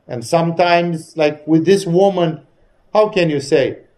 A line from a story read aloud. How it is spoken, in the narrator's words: She cried